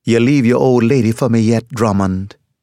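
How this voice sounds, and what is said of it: Jamaican accent. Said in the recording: “in a Jamaican accent”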